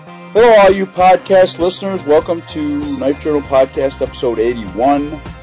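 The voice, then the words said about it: Slightly hoarse voice. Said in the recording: “I'm a little bit hoarse tonight because I was at the Blissfest Music Festival all day yesterday”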